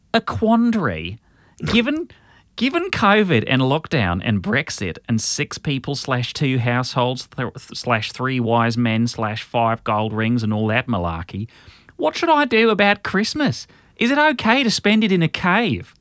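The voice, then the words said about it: Put-on Australian accent. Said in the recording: “I'll do an Australian accent for that then ... that was an interesting accent”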